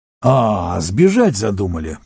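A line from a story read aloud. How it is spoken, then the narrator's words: Growling. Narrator (Russian): прорычал он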